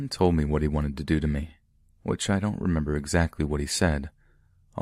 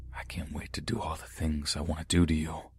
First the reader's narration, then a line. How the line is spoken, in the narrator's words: He whispered in my ear